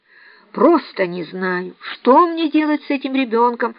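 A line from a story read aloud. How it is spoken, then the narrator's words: Desperate exclamation. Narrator (Russian): в отчаянии воскликнула мисс Офелия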